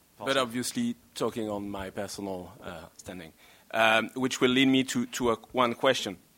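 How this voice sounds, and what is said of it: European, French accent. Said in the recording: “because I'm European, as my accent is explicitly mentioned ... He's from the French diplomatic corps”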